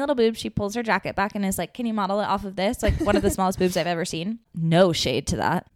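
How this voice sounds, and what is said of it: Usual voice. Nothing is said of it.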